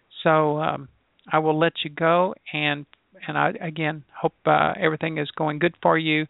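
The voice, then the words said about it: Hoarse, fading voice. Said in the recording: “As you can tell, I'm losing my voice.”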